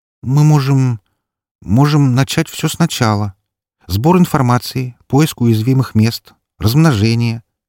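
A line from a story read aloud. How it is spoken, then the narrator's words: Hesitant suggestion. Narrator (Russian): неуверенно предложила стриптизерша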